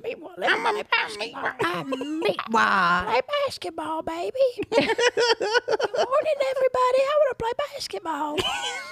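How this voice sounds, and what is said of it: Baby voice. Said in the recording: “the best baby voice you've ever heard”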